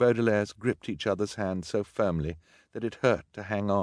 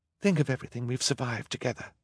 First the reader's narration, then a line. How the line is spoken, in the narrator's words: Violet whispered